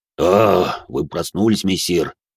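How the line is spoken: Deep bass voice. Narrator (Russian): пробасил лейтенант

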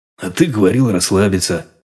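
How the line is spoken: Father's snort. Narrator (Russian): хмыкнул батя

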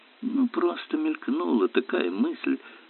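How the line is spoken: Mutter. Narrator (Russian): пробормотал Керк

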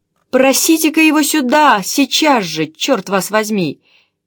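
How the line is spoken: Cheerful shout. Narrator (Russian): весело крикнул полковник

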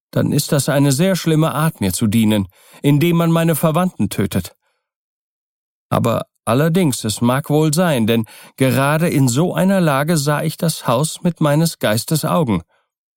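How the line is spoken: Call. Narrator (German): rief Keawi

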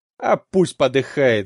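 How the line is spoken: Vicious snarl. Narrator (Russian): злобно скалит зубы Фатих

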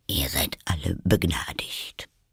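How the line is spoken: King speaking quietly. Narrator (German): hörte Alice den König leise zu der ganzen Versammlung sagen

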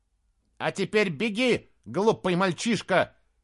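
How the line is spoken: Shout. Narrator (Russian): крикнул Бенабик

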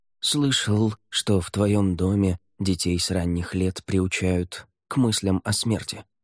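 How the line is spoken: Quiet. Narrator (Russian): тихо сказал Неррель

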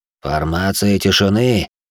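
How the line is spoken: Sharp call. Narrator (Russian): окрикнул

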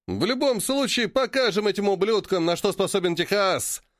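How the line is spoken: Loud laughter. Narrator (Russian): расхохотался Порт

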